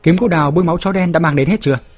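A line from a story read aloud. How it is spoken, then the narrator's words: Strained raised question. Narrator (Vietnamese): Tề Trường Trinh cố cao giọng hỏi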